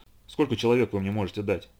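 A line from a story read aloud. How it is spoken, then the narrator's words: Plain. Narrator (Russian): спросил штурман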